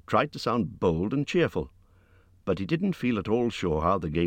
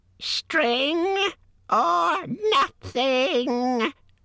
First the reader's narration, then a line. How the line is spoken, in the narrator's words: shrieked Gollum